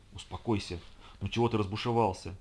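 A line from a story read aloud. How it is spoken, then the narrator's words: Whispered in ear. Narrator (Russian): шептала мне Райли на ухо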